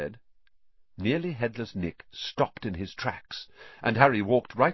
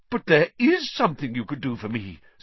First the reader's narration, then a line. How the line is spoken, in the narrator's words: said Nick excitedly